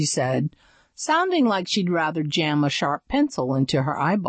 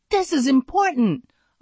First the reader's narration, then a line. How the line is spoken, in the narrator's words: snapped